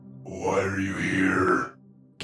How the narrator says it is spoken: came a deep, raspy voice that seemed to echo from everywhere

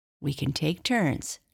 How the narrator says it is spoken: Jessie said eagerly

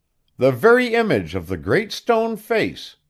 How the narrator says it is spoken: shouted the people

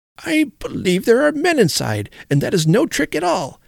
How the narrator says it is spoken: exclaimed Sir Simon, the truth flashing on him

